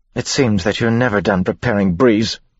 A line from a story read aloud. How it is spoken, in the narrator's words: she snapped